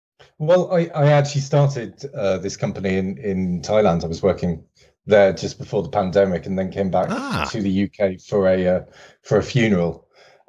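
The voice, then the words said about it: British English accent. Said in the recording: “your accent, that it might be the UK”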